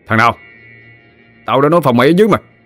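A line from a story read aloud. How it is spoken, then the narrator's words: Shout. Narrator (Vietnamese): Vui quát lên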